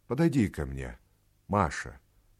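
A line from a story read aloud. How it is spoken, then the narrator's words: Touched, moved voice. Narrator (Russian): сказал он ей тронутым голосом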